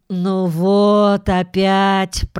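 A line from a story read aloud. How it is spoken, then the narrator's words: Moaning. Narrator (Russian): простонала Джуди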